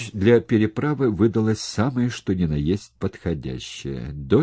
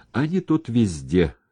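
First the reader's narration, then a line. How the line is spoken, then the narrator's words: Short chuckle. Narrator (Russian): хохотнул Сапко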